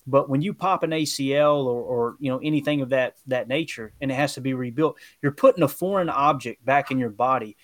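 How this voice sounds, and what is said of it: Rural country accent. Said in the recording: “You can tell by the accent... anyone listen to your accent, like, he might not be a doctor, but he could fix my truck”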